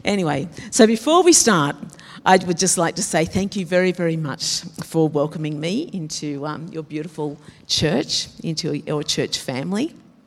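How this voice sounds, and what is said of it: Rough, unwell-sounding voice. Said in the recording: “Sorry about my voice.”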